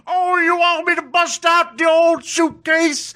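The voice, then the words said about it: Bill Cosby impression. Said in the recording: “your Bill Cosby impression.”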